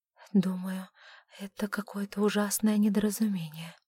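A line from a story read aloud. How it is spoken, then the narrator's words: Trembling whisper. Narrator (Russian): прошептала она, дрожа всем телом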